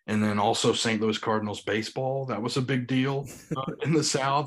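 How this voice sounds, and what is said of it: Noticeable Southern US accent. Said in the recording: “my accent... I never thought I had a big accent, but then you come somewhere like Indianapolis and you're getting called out every 5 seconds”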